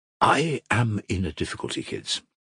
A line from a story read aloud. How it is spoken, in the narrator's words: Krasotkin began solemnly